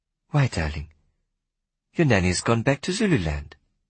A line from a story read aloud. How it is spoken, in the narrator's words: said sweetly